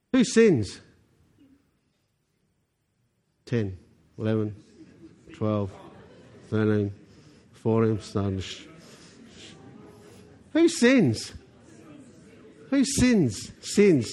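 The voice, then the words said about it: New Zealand accent. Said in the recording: “it's my New Zealand accent”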